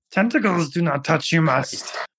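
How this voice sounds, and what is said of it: Yoda character voice impression. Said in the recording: “I think I do a pretty good Yoda. ... It's decent.”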